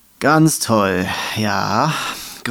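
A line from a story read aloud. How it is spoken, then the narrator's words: Growled with deep sigh. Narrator (German): grollte das Nicht-Einhorn und seine Pferdenasenlöcher blähten sich in einem tiefen Seufzer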